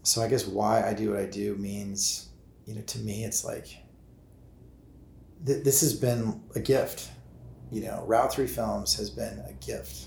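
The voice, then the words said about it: Emotional, choked-up voice. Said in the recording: “I'm getting a little choked up here”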